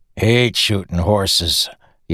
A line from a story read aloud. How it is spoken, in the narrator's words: Yennon grumbled